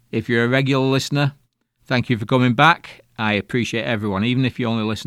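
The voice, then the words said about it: Speaks with a noticeable accent. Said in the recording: “I hope you can understand my accent. When I get into the weeds a bit, it gets a little bit slangy and people can't understand me”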